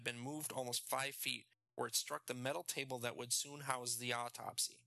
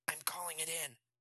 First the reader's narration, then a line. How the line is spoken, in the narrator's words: Ed replied, also in a whisper